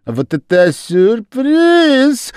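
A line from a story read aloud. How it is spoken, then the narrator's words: Shrieked excitedly. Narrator (Russian): завопила Лиззи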